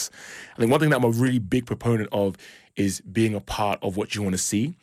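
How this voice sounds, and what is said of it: British accent with some American influence. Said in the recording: “If you didn't catch by the accent, I'm originally from the UK, but I also spent some time in the US”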